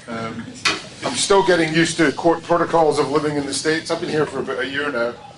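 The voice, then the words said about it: Foreign accent. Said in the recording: “slightly suspect accent that they imported me from some weird country”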